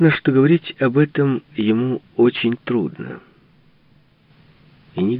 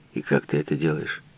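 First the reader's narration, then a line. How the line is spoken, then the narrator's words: Forced even, conversational tone. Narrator (Russian): Асфалтер старался говорить ровным голосом, в тоне беседы, информации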